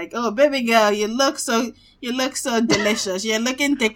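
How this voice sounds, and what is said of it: Put-on Igbo Nigerian accent. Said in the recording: “you say it in that accent... our Igbo brother”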